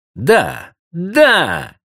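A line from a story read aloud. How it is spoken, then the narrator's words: Girls exclaiming in chorus. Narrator (Russian): хором воскликнули остальные девушки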